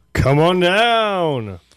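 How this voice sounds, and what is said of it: Poor game show host impression. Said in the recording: “good Bob Barker impression ... That was terrible.”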